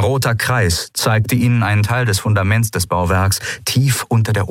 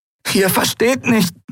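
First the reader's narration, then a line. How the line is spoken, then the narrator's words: Croaking. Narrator (German): krächzte sie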